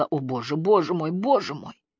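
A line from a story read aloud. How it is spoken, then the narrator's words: Hoarse mumble. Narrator (Russian): Она лишь хрипло пробормотала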